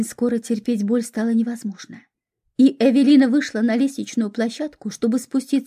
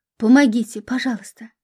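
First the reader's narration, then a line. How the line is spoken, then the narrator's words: Moaning plea. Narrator (Russian): простонала Эвелина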